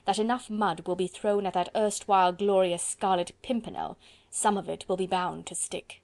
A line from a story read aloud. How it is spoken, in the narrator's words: he said with a harsh laugh